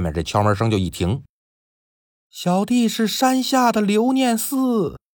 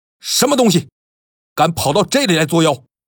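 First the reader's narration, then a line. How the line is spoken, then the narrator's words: Deep bellowing roar. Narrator (Chinese): 气沉丹田，大吼一声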